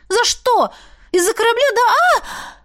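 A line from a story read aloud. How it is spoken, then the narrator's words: Howling. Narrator (Russian): Взвыла я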